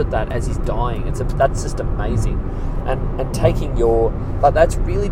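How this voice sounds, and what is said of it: Usual voice. Nothing is said of it.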